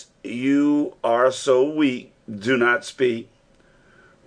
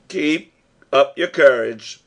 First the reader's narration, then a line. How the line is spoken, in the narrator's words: said my uncle